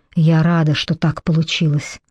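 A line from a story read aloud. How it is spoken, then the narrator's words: Muttered. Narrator (Russian): пробормотала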